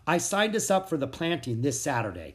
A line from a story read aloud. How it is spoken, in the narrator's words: Mom said